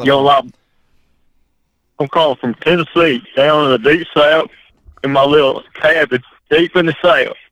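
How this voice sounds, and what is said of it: Put-on Southern redneck accent. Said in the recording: “You like that redneck accent? ... Gotta pull off the redneck accent. ... You guys thought I was a straight redneck from Tennessee”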